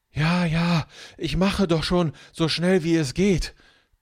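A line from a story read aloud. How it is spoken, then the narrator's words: Panting, gasping for air. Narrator (German): keucht Marco und japst nach Luft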